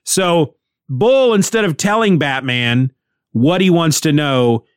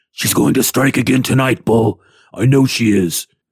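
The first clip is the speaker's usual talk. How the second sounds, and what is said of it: Batman character voice. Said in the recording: “do my Batman voice ... That hurts my throat.”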